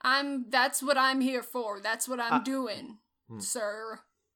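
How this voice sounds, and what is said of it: Sarcastic tone. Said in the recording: “It was sarcastic.”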